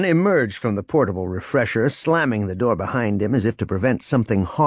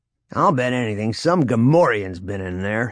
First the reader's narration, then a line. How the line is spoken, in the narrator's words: he growled to Droma